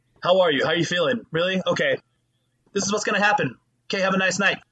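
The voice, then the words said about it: Imitates a hurried doctor's voice. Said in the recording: “best doctor impression”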